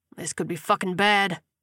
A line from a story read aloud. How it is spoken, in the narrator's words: he grunted as he pumped his legs